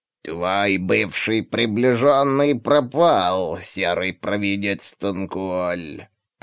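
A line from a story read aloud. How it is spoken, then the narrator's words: Creaky voice. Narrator (Russian): проскрипел верховный погонщик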